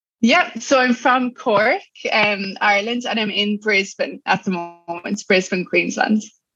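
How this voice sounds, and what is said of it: Irish accent. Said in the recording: “obviously Irish accent”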